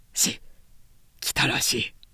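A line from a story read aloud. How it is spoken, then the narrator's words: Whispered. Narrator (Japanese): と彼はささやいた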